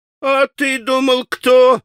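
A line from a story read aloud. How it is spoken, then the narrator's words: Loud ringing joyful yell. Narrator (Russian): звонким, счастливым голосом изо всей силы завопил Красоткин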